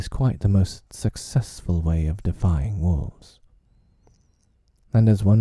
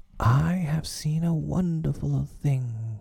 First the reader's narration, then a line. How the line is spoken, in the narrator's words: he cried